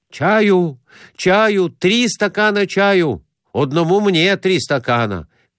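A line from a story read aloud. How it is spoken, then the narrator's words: Shouted. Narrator (Russian): кричал Конурин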